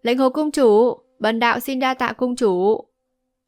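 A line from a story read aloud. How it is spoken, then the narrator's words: Loud laughing. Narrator (Vietnamese): Vô Ưu thượng nhân cười to nói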